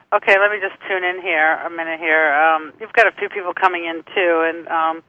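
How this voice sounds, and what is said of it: Boston accent. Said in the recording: “your accent ... She was from Boston”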